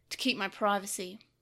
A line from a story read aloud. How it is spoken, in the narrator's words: he replied coldly